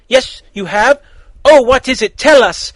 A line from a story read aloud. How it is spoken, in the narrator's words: Starfire said excitedly